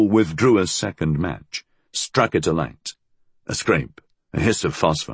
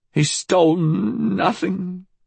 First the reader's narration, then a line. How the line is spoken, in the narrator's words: she stuttered